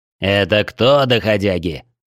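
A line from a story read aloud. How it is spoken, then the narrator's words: Growled. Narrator (Russian): рыкнул Орман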